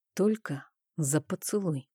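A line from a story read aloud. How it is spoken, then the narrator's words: Intimate whisper. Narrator (Russian): прошептал в губы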